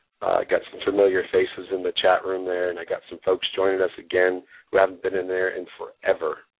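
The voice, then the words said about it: Sick-sounding voice. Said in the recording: “I apologize for my voice. I've been sick for about a week now.”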